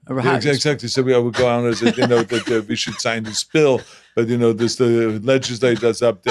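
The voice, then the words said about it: German accent. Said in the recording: “coming from Germany ... the German accent”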